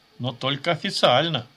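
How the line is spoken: Chuckling. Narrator (Russian): хохотнул он

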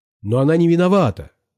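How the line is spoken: Frightened shout. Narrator (Russian): закричал я, испугавшись, что сильно подвел дежурную

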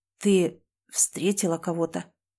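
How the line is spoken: Hoarse question. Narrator (Russian): хрипло спросил друг

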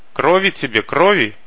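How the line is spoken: Shouting from behind. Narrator (Russian): заорал сзади второй, тот, которого звали Мальком

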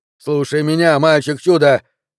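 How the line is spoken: Yelling at full force. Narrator (Russian): заорал, что есть мочи Джо

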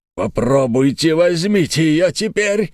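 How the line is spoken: Heroic battle cry. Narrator (Russian): закричал он, как Леонид при Фермопилах

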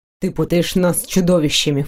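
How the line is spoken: Snorted. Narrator (Russian): фыркнул

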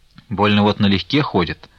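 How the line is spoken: Housekeeper grumbling. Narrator (Russian): ворчала ключница

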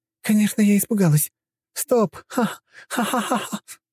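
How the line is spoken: Sudden burst of laughter. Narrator (Russian): Вдруг расхохоталась та

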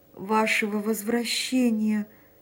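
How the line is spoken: Moaning, voice breaking off. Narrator (Russian): простонал Эмиль, и голос его зазвенел и оборвался

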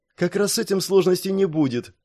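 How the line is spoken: Joyful explanation, girl. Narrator (Russian): радостно девочка и пояснила

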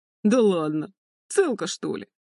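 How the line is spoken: Nasty cackling laughter. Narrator (Russian): Захохотала мерзкими голосами троица

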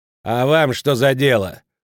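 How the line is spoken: Angry woman shouting. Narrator (Russian): зло крикнула госпожа Хоргаш

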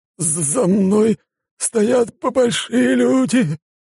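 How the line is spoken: Trembling voice. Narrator (Russian): дрожащим голосом произнес Рубин

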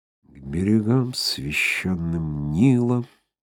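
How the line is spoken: Soft humming song. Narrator (Russian): тихонько напевало божество

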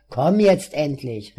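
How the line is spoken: Angry shout. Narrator (German): rief Adolf zornig

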